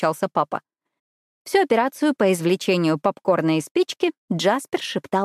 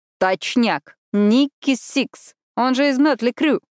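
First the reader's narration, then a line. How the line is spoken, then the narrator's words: Loud and joyful. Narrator (Russian): Громко и радостно изрек Джаз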